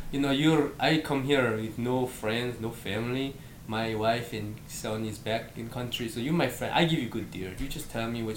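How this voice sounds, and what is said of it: Put-on foreign immigrant accent. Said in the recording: “I won't do the accent ... No, try to do the accent.”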